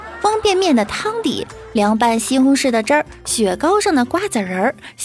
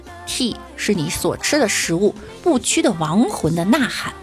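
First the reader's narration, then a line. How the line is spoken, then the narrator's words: Slow. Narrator (Chinese): 司机缓缓地说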